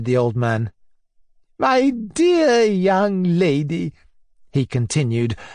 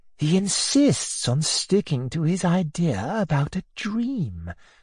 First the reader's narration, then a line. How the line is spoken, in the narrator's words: whispered Mrs